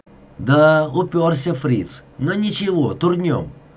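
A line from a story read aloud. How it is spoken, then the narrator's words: Cheerful, brisk. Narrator (Russian): бодро выдал сержант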